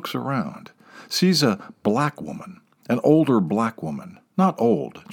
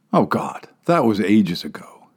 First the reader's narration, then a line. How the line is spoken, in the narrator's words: she says